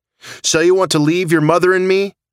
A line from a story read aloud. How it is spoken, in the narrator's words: She screamed